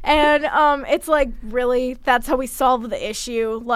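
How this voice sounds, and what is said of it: Usual voice. Nothing is said of it.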